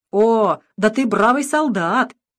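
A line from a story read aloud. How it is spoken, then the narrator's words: Good-natured laughing shout. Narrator (Russian): великодушно смеясь, крикнул ему один из немцев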